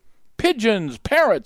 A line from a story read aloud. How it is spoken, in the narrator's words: another shouted at Jack